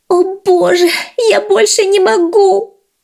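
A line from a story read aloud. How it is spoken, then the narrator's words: Moaning. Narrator (Russian): застонала городская мышь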